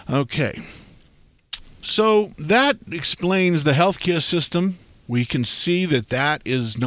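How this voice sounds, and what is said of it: Usual voice. Nothing is said of it.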